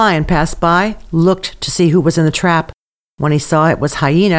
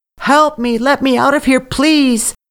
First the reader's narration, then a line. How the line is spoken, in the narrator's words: Hyena shouted